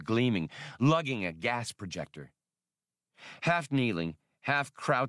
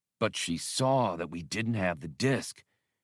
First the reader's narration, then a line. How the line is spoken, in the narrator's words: Badur muttered